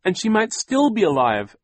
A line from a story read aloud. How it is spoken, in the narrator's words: Violet cried